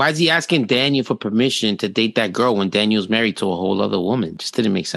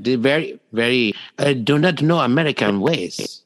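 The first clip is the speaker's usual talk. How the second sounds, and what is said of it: Stereotyped put-on foreign accent. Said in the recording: “very stereotyped ... me doing this accent”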